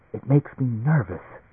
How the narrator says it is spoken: Emily whispered

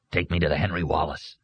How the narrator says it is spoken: Arnie muttered

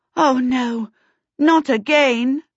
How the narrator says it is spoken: Sophie groaned

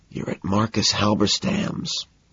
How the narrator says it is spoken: whisper

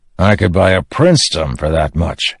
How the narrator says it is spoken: the quartermaster said with a grunt

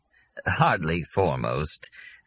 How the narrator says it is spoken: Glaub murmured

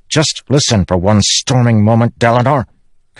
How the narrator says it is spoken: Kadash snapped

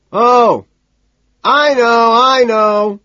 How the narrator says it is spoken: he screams, eyes bulging

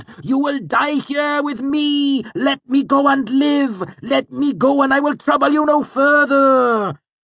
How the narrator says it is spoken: wailed

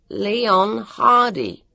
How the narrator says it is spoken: told it loudly and slowly

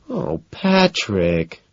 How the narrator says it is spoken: she whines

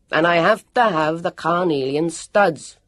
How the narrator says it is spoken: bellowed

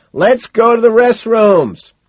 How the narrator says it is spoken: shout back

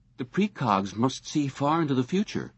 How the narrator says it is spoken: Whitwer exclaimed

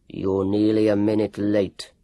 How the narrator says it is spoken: growled Dr

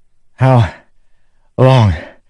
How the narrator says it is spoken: he said, gasping

